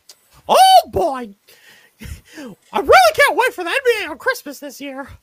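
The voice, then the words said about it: Mickey Mouse cartoon voice. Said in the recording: “my Mickey Mouse impression”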